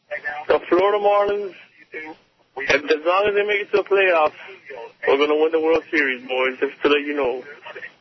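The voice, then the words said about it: Put-on phony funny voice. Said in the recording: “funny voice ... the phony voice”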